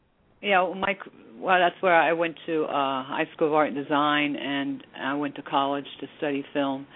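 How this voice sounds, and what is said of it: Slight New York accent. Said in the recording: “I'm sure I have a New York accent. ... Yeah, a little bit you do.”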